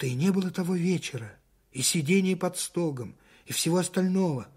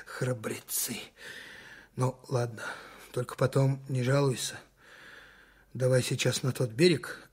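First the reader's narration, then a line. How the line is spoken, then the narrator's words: Unexpectedly quiet. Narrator (Russian): неожиданно тихо закончил он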